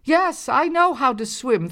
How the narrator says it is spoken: Thorny shouted back

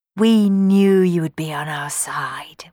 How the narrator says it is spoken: whispered Johnny

